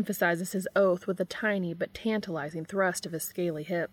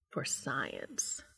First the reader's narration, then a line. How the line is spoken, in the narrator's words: Castiel agrees huskily